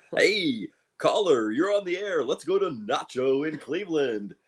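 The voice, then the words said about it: Generic radio DJ voice. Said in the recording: “a good generic DJ voice”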